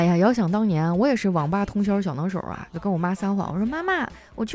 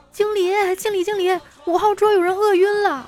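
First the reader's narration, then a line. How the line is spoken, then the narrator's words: Panicked shouting while running. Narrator (Chinese): 这把那妹子慌的一边跑一边喊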